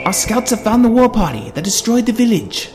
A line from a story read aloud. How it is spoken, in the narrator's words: yelled the Eldin on the eagle